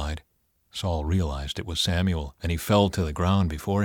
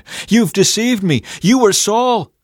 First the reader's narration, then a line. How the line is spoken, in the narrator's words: the woman, she screamed